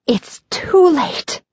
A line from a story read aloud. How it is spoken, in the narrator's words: whisper as bravely as I can